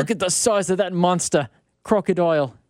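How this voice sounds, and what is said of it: Put-on Australian accent. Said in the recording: “He did an Australian accent.”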